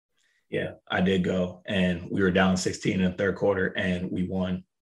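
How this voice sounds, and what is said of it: Raspy voice. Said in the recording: “I'm sorry my voice is raspy”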